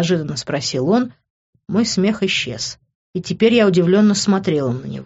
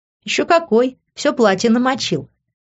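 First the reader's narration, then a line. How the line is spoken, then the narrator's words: Laughing. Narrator (Russian): рассмеялась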